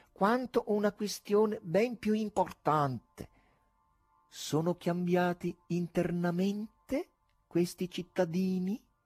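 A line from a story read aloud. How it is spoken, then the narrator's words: Slow, measured wizard's voice. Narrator (Italian): diceva lentamente il mago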